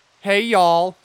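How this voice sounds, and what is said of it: Mock Southern US accent. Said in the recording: “my southern impression ... that's what I think southern people sound like”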